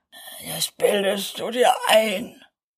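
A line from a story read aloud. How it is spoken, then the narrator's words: Grumbling. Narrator (German): antwortete der erste und brummte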